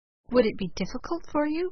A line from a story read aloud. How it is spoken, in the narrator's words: whispered Ammon